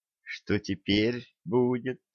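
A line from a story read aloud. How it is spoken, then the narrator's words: Whisper close to ear. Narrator (Russian): прошептал кто-то возле уха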